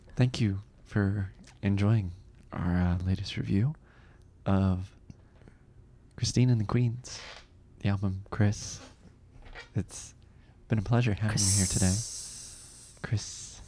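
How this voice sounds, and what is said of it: Polished radio-host podcast voice. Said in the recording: “now I'm getting into my podcast voice”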